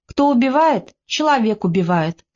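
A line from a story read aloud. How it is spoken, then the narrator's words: Calm. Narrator (Russian): спокойно сказал Тихон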